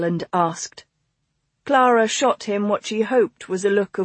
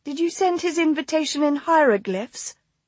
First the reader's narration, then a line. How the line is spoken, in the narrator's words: Rose asked sweetly